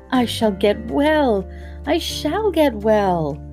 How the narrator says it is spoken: he cried out

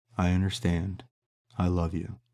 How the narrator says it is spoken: said Mia

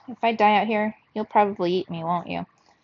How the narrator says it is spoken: said in a conversational tone

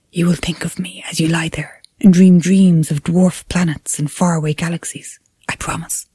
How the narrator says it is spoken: from further away, it whispered

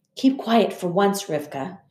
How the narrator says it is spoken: whispered in my ear

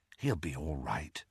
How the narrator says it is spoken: murmured Ginny

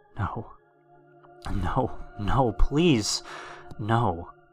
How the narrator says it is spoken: muttered over and over

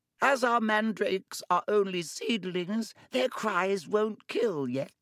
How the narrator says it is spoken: she said calmly, as though she'd just done nothing more exciting than water a begonia

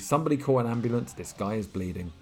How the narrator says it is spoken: vocalist said anxiously

